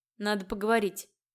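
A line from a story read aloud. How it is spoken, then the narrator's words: Grumbling. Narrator (Russian): буркнул Ель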